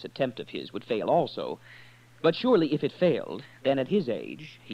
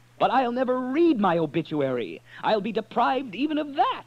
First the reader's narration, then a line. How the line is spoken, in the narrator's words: he spat